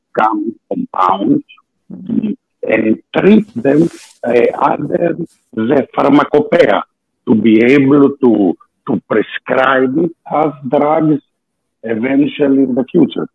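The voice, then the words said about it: Greek-accented English. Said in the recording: “my accent, because I'm Greek”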